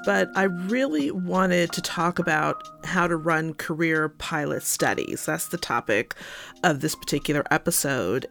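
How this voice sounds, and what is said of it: Unwell-sounding, impaired voice. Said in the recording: “I'm not feeling 100%, so please forgive my voice”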